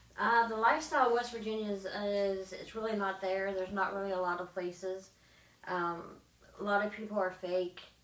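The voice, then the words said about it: West Virginia accent. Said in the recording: “just in case you can't hear her accent, you are from West Virginia”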